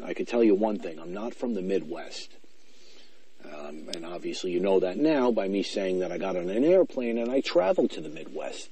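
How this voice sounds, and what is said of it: Noticeable regional accent. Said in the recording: “commented on my accent ... does have an accent ... has quite the accent”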